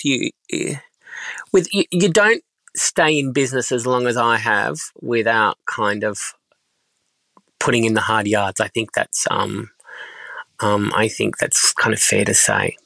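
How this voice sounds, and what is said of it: Tired, exhausted-sounding voice. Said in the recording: “as you can hear in my voice, I'm just absolutely exhausted”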